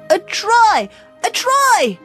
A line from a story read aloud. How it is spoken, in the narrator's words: yelled Freddy